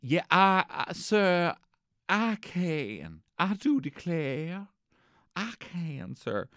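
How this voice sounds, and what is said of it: Put-on Alabama Southern accent. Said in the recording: “does anyone know how to do an Alabama accent? ... I just seen Forrest Gump”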